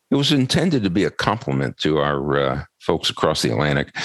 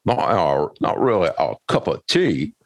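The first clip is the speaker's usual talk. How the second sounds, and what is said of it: Poor put-on British accent. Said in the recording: “Was that your attempt at a British accent? ... No, it wasn't. Don't ever do that again. ... that was awful.”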